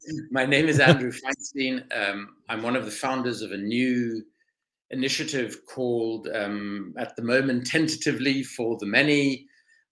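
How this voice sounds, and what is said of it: South African accent. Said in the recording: “By background, I'm South African, as you can probably hear from my voice.”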